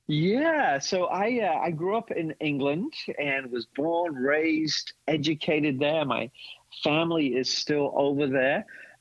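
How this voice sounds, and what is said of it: English accent with American influence. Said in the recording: “my accent probably reflects that. There's still a little bit of England in me, but there's a lot of American in my accent”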